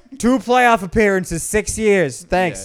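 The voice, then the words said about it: Put-on New York accent. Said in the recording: “I'm doing a New York accent”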